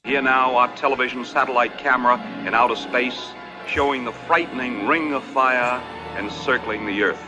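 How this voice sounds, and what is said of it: Distinctive older Ohio-type accent. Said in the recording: “he's got that great accent. I don't even know what that accent is ... That's Columbus, right? Ohio. ... kind of Ohio, yeah.”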